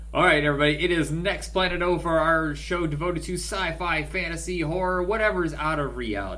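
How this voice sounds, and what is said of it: Radio announcer voice. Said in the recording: “sound of my radio voice.”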